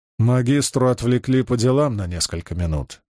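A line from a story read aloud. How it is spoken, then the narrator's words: Plain. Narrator (Russian): сказал Маркус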